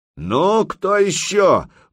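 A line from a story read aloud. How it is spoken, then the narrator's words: Roar. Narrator (Russian): взревел Илья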